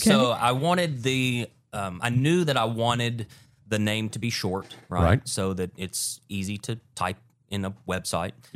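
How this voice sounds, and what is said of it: Southern US accent. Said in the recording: “We are in the South. Yeah, we are in the South. ... That may be my accent a little bit.”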